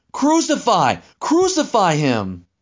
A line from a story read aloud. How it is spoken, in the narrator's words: So they began shouting